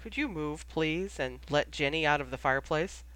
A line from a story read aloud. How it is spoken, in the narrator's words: said Remus gently